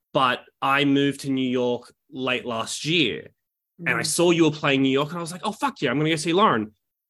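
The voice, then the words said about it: Australian accent. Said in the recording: “as you can tell by my stupid accent, I'm from Australia”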